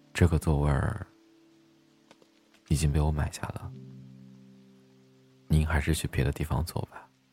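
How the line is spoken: Soft. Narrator (Chinese): 轻声的说了一句

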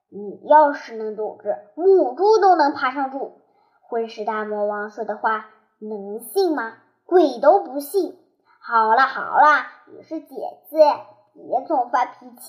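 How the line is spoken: Through gritted teeth. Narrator (Chinese): 陶小乐咬牙切齿，一字一分的从嘴牙缝里挤出一段话

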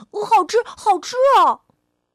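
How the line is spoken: Shrieking. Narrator (Chinese): 小火苗尖叫起来

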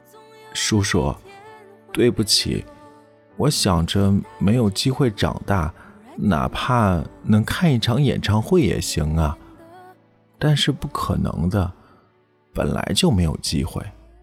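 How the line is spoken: Little girl, low voice. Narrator (Chinese): 小女孩低声地说

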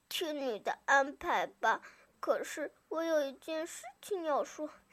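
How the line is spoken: Sighing. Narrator (Chinese): 小猪叹了口气

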